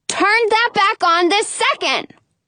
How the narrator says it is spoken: holler

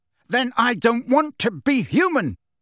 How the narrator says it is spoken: Harry roared

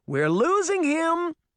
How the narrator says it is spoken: Daphne cried desperately

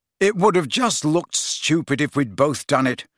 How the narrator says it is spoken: said irritably

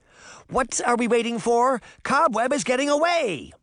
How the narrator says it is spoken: Moth cried

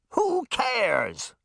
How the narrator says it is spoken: the mayor bellowed into her megaphone

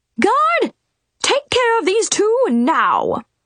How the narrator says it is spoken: yelled the Queen

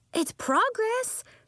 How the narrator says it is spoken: exclaimed Nori

